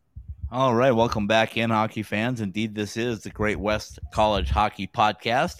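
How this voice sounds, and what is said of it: Raspy voice. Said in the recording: “my raspy voice still hanging in there”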